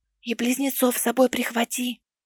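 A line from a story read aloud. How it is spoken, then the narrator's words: Whispered. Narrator (Russian): шепнула Лиси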